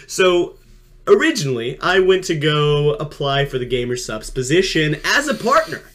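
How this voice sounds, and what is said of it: Sports commentator voice. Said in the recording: “do my sports commentator voice”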